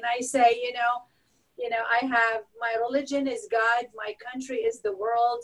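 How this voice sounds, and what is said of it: Noticeable foreign accent. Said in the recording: “when they hear my accent, ... oh, where are you from?”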